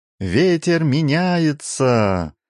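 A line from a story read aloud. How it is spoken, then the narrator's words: Sudden sailor's shout. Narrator (Russian): Вдруг закричал кто-то из матросов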